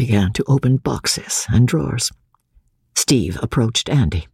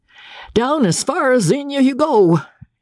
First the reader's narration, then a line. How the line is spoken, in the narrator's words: shouted Captain Andy at the top of his voice